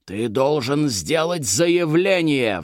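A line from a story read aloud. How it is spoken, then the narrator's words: Roaring. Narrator (Russian): взревел Маврудис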